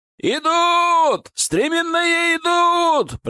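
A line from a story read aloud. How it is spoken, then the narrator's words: Shouting from a wall. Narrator (Russian): прокричали со стены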